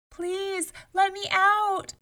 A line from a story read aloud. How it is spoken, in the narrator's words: shouted